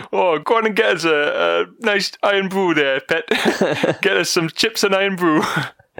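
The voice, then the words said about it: Put-on exaggerated regional accent. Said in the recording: “that racist accent that I did there”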